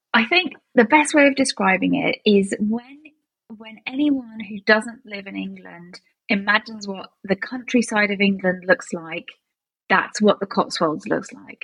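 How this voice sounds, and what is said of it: British accent. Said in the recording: “they probably notice your British accents”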